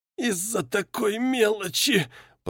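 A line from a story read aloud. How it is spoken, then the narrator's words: Hoarse, pain-maddened. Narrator (Russian): прохрипел он, бешеным от боли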